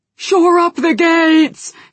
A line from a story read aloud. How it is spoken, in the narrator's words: he shouted